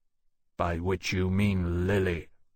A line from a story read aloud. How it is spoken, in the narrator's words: Lawrence said coldly